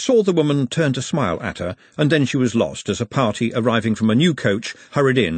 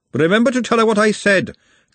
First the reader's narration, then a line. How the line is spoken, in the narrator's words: Glenda shouted after her